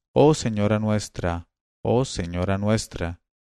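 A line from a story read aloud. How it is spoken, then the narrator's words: Group sighing. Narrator (Spanish): empezaron a suspirar diciendo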